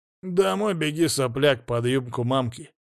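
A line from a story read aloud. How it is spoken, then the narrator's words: Mocking, hoarse. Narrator (Russian): насмешливо прохрипел кто-то, вызвав у товарищей нервные смешки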